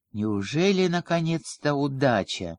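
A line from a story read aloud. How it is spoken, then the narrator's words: Male whisper. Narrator (Russian): прошептал он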